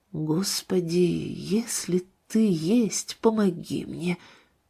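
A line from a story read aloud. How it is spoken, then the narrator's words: Very quiet. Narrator (Russian): Мама очень тихо произнесла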